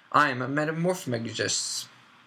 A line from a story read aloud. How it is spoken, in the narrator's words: she said